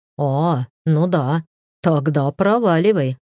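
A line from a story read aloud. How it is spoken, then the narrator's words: Chuckling. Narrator (Russian): хохотнул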